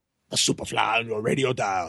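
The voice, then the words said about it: Bad Jimmy Snuka impression. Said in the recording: “I'm going to try to do a really bad Jimmy Snuka impression when I read his quotes”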